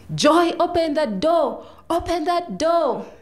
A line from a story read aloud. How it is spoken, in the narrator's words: his brothers joined in, screaming